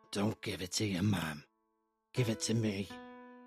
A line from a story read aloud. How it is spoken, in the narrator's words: a raspy voice, again male, saying